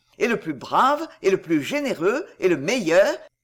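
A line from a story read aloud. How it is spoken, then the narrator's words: Enthusiastic exclamation. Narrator (French): s'écriait-il, l'œil brillant d'enthousiasme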